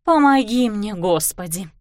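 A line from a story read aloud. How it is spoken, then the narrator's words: Muttered through teeth. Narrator (Russian): сквозь зубы пробормотала Кларисса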